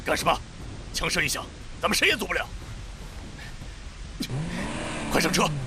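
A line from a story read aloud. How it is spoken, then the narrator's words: Hasty stern shout. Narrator (Chinese): 方若愚急忙厉声喝止了他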